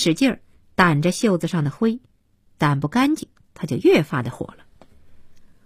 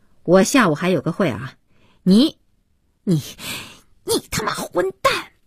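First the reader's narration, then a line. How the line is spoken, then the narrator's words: Frustrated anger. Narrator (Chinese): 不知如何发泄怒火，边说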